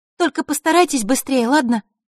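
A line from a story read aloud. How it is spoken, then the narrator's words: Anxious urging, fairy. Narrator (Russian): взволнованно напутствовала фея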